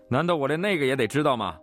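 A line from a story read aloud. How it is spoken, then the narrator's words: Loud, dry laugh, exasperated. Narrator (Chinese): 他干笑一声，带着觉得我不可理喻的语气，大声说道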